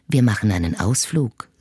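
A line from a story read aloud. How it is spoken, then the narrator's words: Soft murmur in ear. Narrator (German): säuselt er sanft in mein Ohr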